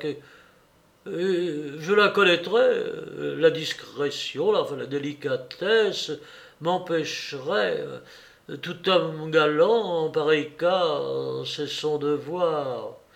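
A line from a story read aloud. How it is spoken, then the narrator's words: Stammered. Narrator (French): balbutia l'Aversac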